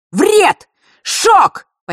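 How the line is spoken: Shouted. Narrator (Russian): почти одновременно с ним выкрикнул Миракл

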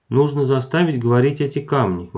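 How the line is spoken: Exclaiming. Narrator (Russian): воскликнула она наконец

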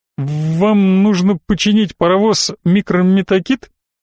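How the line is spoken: Slight stutter. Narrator (Russian): говорил он, слегка заикаясь

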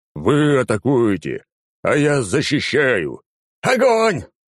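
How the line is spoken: Commander growling. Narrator (Russian): рыкнул командир

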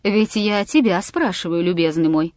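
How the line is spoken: Calm. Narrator (Russian): спокойно продолжал Аркадий Павлович

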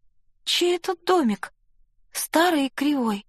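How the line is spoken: Timid question. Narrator (Russian): робко спросила

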